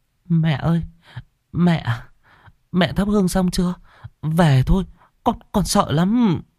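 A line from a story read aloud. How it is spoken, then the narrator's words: Frightened stammer. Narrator (Vietnamese): Cô Ba nói xong câu này thì tự nhiên rùng mình, rồi lắp bắp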